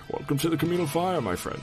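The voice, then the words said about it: Old man character voice. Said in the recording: “your old man voice for Deckard Cain ... it's like a Captain Picard and, oh god, ... Bond had a baby”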